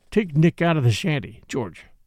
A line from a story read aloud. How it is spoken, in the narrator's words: the doctor said